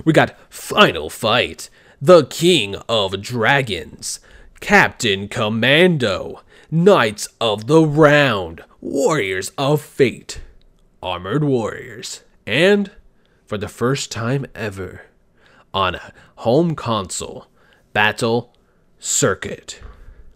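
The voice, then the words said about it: Dramatic epic announcer voice. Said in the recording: “Let's go ahead and do this in an epic voice.”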